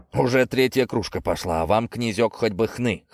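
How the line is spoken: Surprised chuckle. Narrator (Russian): хохотнул Виктор с искренним удивлением

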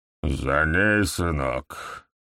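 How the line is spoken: Tight-lipped mutter. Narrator (Russian): Почти не разжимая губ, процедил он

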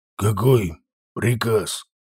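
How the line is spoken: Old devil's bewildered mutter. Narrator (Russian): пробормотал старый черт, обескураженный такой постановкой вопроса

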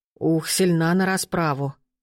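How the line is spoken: Breathless exhale. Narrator (Russian): выдохнул Радко

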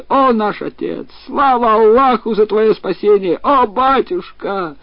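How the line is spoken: Children shouting. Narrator (Russian): его дети кричали

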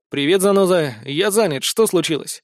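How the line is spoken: Irritated. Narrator (Russian): раздраженно ответил ему

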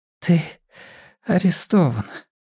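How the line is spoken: Whispered. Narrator (Russian): прошептала Бакстер

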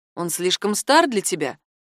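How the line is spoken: Grumbling. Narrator (Russian): ворчал Ярослав

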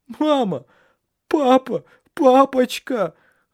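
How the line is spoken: Sobbing. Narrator (Russian): рыдал Еспер

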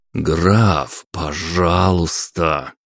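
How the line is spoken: Through gritted teeth, fake politeness. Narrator (Russian): проговорил я сквозь зубы так, чтобы мнимая вежливость не воспринималась никак иначе

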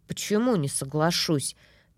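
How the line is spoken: Mumbled. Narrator (Russian): пробормотала я

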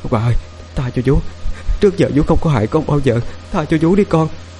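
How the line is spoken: Tearful desperate pleading. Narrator (Vietnamese): Mồ hôi vã ra như tắm, bà khóc lóc van xin

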